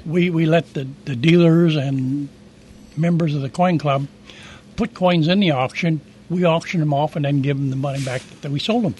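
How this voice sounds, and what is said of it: Hoarse voice from laryngitis. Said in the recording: “battling a little bit of laryngitis.”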